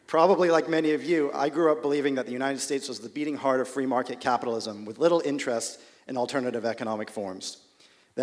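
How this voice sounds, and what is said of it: American accent. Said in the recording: “a guy with an American accent”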